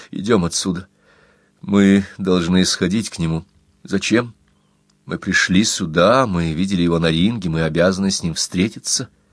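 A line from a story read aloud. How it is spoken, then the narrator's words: Firm. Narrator (Russian): твердо сказал Рудольф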